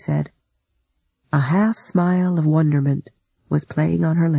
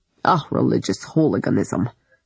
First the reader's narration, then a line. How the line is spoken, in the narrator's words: Lunacharsky muttered darkly